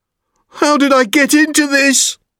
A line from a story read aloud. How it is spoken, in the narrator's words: He cried